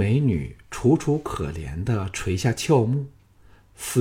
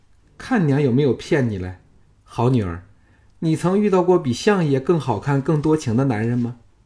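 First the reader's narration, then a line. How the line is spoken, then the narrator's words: Laughing. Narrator (Chinese): 红娘子未语先笑说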